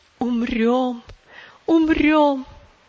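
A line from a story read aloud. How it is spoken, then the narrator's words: Sobbing speech. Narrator (Russian): Тирса сказала, рыдая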